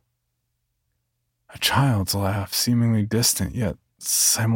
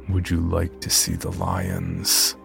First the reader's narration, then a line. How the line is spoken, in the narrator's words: in a throaty, guttural tone